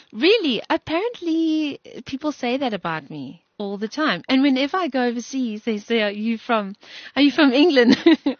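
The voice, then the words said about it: Strong British-sounding accent. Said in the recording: “such a strong British accent”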